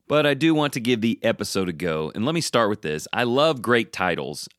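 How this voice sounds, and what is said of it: Congested voice from a cold. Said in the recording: “my voice is affected by a little bit of a cold ... it sounds like I have a balloon in my throat”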